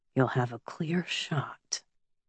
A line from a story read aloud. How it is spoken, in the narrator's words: Caleb breathed